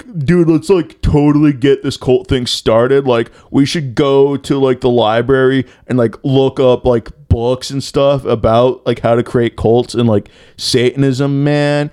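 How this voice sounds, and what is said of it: Imitated teenage kid voice. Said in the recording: “my impression, my personal impression on how the cult got started like, like like the kids are probably hanging out in the car”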